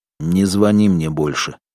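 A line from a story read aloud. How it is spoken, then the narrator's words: Angry. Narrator (Russian): сердито сказал Федор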